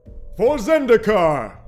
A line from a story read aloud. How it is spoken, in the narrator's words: shouted